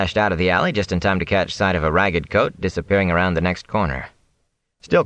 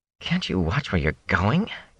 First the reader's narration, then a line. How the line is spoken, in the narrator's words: came a mutter from under him